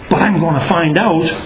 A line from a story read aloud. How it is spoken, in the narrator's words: said Tootle crossly